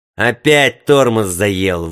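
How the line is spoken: Grumbling. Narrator (Russian): ворчал бомбардир

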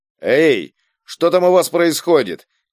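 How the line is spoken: Surprised shout from below. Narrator (Russian): крикнул из ямы Игорь, удивленный воцарившейся тишиной

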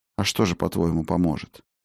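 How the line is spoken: Even-voiced question. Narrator (Russian): ровным голосом спросил Фиделис

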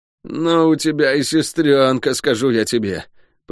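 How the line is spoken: Groaning. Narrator (Russian): простонал целитель

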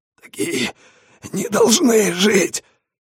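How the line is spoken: Dying hoarse wheeze. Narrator (Russian): хрипел, умирая, городской

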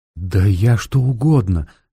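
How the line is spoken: Hasty exclamation. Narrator (Russian): слишком поспешно воскликнула она

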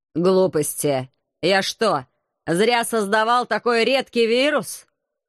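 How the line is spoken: Angry, surprised grumble. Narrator (Russian): С сердитым удивлением проворчал Заутберг

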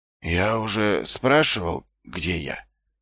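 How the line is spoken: Weak-voiced question. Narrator (Russian): слабым голосом поинтересовался Ваймс

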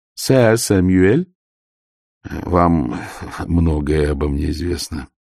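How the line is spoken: Weary remark. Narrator (Russian): устало заметил Ваймс

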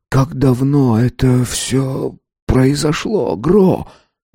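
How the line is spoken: Hoarse. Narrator (Russian): хрипло проговорил он

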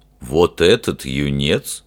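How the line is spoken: Scornful snort. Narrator (Russian): фыркнул Фример

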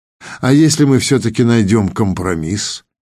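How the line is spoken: Purring, deep chest voice. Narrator (Russian): мурлыкающим грудным голосом проговорила Патриссима

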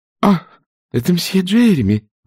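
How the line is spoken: Exclaimed. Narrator (Russian): воскликнула она

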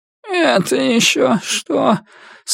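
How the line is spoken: Sleepy, grumbling. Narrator (Russian): сонно проворчала она, недовольная тем, что ее разбудили

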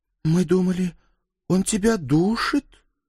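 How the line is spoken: Uncertain woman. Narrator (Russian): неуверенно сказала блондинка

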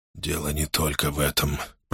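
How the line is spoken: Whisper. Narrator (Russian): прошептал Джал Арн

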